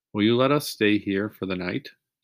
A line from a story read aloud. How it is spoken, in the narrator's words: Jesse asked